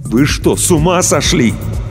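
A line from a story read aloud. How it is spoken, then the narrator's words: Barely restrained shout. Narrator (Russian): Иван с трудом сдерживался, чтобы не закричать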